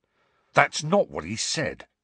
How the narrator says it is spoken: snarled Fred

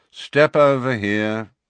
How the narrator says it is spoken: said the wizard in a bored voice

